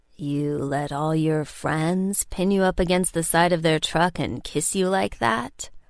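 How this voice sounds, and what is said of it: Deep male character voice. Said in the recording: “Finn's deep voice”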